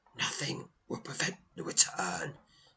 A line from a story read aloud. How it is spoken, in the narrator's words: she hisses through clenched teeth